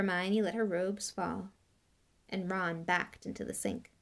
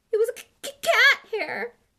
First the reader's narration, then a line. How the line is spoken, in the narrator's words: she howled